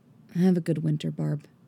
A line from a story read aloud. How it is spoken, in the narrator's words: he says quietly